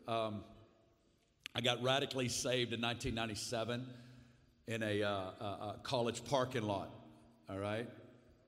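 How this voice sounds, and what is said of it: Strong Arkansas Southern American accent. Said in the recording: “you're going to hear an accent, and it's from Arkansas. And so it's a very powerful accent”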